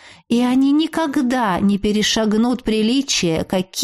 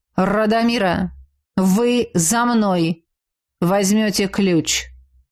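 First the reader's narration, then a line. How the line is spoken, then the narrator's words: Calm. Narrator (Russian): Спокойно проговорил лорд Сайер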